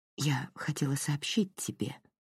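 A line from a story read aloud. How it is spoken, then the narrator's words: Mother's whisper. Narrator (Russian): прошептала мать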